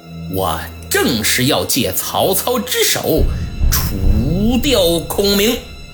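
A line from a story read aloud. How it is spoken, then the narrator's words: Cold sneering laugh. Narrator (Chinese): 周瑜一声冷笑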